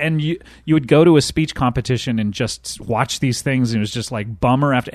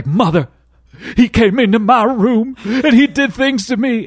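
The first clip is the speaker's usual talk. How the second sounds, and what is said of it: Exaggerated dramatic Southern accent. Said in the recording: “everyone was Southern ... that was just my impression of like drama”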